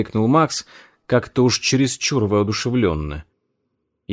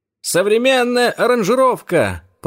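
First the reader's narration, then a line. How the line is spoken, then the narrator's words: Shouted. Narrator (Russian): прокричал Дэниел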